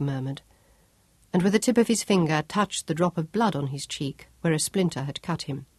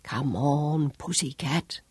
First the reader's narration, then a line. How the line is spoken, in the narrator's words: murmured